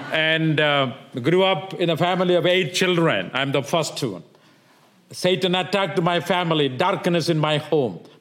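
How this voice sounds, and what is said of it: South Indian accent. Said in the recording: “I'm from southern part of India. That's why I have a southern accent”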